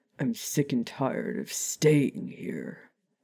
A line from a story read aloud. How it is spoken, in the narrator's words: Remus groaned, in obvious frustration